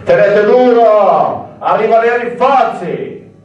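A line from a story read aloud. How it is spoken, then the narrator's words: Shouting. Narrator (Italian): ogni quarto d'ora l'aiutante si sporgeva a gridare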